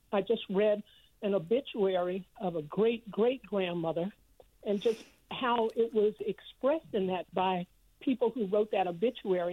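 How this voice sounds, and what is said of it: Voice cracking with emotion. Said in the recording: “You can tell my voice is a little bit cracking because it is so meaningful.”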